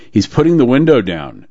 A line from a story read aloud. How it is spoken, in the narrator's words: said T